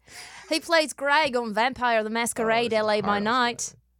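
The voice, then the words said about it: Put-on Australian accent. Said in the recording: “in my Australian accent”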